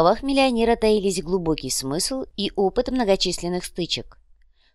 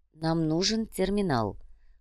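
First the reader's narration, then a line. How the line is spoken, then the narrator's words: Tense mutter. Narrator (Russian): пробормотал напряженно оглядывающийся Ваня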